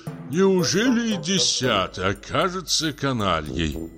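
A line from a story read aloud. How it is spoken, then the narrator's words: Sighing director. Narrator (Russian): вздохнул наш директор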